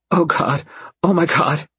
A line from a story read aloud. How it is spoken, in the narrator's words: she pants